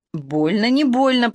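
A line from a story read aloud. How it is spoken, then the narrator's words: Hoarse wheeze. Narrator (Russian): просипела Ирка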